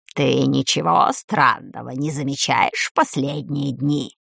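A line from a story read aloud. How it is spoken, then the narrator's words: Hoarse wheeze. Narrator (Russian): сипел безглазый ужас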